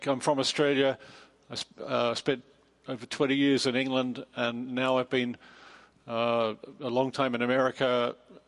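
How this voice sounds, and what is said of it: Mixed Australian, English, American accent. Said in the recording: “my funny accent, it's kind of mid-Pacific, mid-Atlantic... apparently my accent is at home nowhere in the world”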